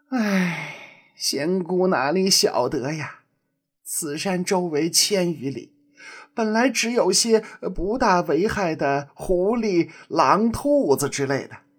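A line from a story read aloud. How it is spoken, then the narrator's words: Sighing old woman. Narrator (Chinese): 土地奶奶叹了一口气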